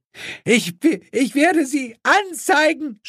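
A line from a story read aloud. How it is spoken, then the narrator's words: Screaming. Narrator (German): schrie diese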